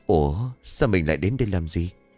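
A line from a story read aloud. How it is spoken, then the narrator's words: Muttering. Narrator (Vietnamese): Soạn liền lẩm bẩm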